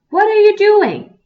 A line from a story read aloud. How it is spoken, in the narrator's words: he cried